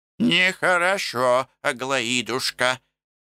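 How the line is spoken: Toothless mumbling, very old woman. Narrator (Russian): шамкала Пульхерия, качая своей дряхлой головой

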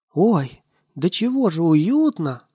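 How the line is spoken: Exclaimed. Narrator (Russian): воскликнул Ниси

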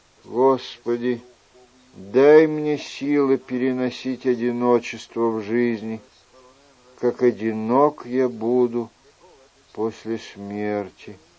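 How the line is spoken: Prayer-like mumble after pause. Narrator (Russian): После краткой паузы он пробормотал, словно читая молитву

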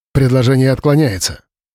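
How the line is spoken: Sharp. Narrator (Russian): резко произнес Павел

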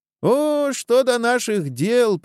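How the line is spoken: Squeaky voice. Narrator (Russian): пропищал Безбородый

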